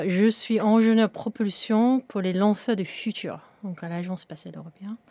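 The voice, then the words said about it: Slight British accent in French. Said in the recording (French): “on entend un petit peu à ton accent, tu, tu viens de, de Grande-Bretagne”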